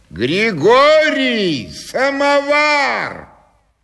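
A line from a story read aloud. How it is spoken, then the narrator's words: Distant shouting. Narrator (Russian): в коридоре кто-то кричал во все горло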